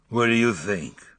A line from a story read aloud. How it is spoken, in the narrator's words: He didn't raise his head, but his voice rumbled